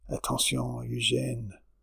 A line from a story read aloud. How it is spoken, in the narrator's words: his urgent whisper